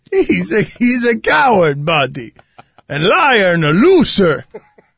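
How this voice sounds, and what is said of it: Dan Gilbert impression, Eastern European villain. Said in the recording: “I'm a terrible impersonator ... You're making him an Eastern European Bond villain ... Dracula”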